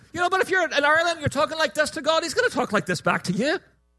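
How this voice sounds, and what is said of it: Put-on sing-song Irish accent. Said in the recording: “it's very easy to do the Irish accent, by the way, all you have to do is pretend like you're singing ... I can do my Irish accent and not be like a fool, because it's not really good, actually, but it's not bad”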